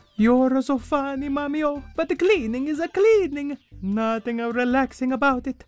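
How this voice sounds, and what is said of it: Bad put-on Italian accent. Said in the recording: “a bad Italian accent”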